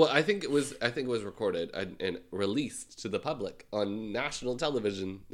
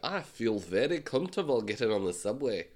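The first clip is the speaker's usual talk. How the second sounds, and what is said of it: Weak attempted Scottish accent. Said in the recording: “Scottish is not my number one accent.”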